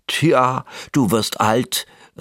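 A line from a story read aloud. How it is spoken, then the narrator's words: Elf calling out. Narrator (German): rief ein Wichtel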